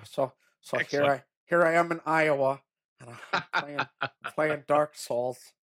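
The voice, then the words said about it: Imitates another person's voice. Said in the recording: “That is a perfect impression ... I've never heard a better impression ... Sounds exactly like him. It's incredible.”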